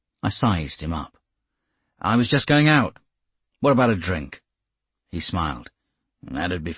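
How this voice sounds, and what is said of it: Usual voice. Nothing is said of it.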